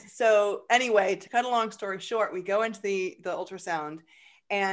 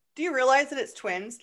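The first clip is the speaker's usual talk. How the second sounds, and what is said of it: Annoyed voice. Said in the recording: “in a very annoyed voice”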